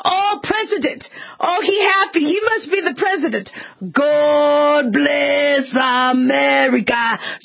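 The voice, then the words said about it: Put-on Caribbean or Jamaican accent. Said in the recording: “I love to put on an accent. ... I would pretend I was from the Caribbean, right, or Jamaica.”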